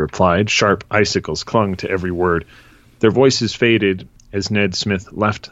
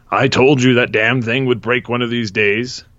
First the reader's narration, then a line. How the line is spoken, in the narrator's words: Ned Smith's father roared